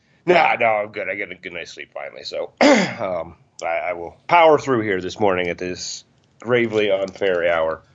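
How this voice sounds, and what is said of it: Tired-sounding voice. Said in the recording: “You sound it too. You sound tired.”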